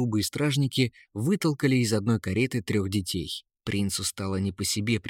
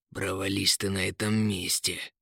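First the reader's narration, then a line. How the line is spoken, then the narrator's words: Quiet grumbling. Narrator (Russian): тихо проворчал Рыжебород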